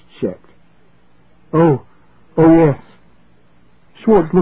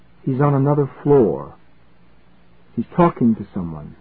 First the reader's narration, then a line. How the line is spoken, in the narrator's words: Schwartz muttered